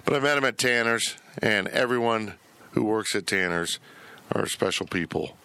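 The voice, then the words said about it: Strained, fading voice. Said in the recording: “I'm losing my voice, ... I was just yelling at Zach before we went on the air.”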